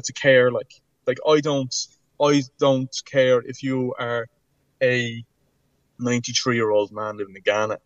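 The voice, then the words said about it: Dublin Irish accent. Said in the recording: “silly Dublin accent, I sound like a goose”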